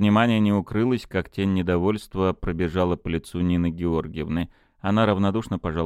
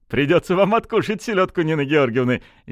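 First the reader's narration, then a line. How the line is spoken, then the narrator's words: Restrained laugh. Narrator (Russian): сдержанно засмеялся Константин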